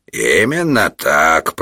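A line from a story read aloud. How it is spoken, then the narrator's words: Cat, plain. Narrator (Russian): продолжал кот Мурлыка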